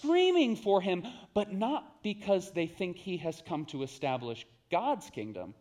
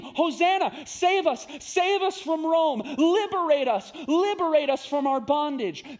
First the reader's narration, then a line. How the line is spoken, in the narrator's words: they scream